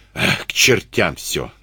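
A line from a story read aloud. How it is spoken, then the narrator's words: Irritated. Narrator (Russian): раздраженно сказал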